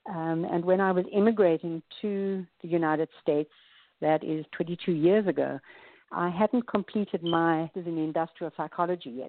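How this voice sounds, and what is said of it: South African accent. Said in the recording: “As you can hear from my accent, I'm from South Africa.”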